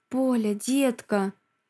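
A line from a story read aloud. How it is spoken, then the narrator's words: Hoarse low voice. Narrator (Russian): Его голос хриплый и низкий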